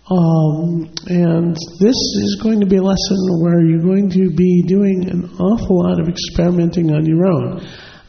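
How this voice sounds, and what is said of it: Raspy, strained voice. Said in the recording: “Throat is not in the greatest of shape... As you can hear, in addition to the raspy voice”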